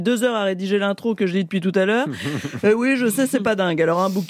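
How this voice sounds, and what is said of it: Usual voice. Nothing is said of it.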